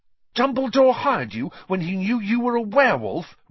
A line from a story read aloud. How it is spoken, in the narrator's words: Ron gasped